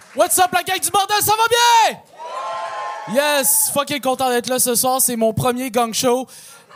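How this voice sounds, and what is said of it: Québécois French accent. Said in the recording (French): “j'ai un accent québécois ... je parle comme un gars qui habite à Saint-Eustache”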